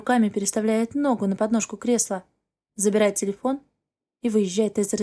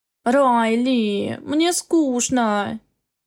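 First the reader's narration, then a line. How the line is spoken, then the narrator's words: Whiny drawling woman. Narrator (Russian): Тянет капризным голосом высокая брюнетка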